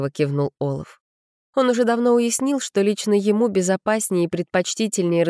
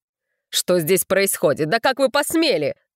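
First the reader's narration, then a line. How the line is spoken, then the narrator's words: Angry barking. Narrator (Russian): краснея рявкнул гость на Олафа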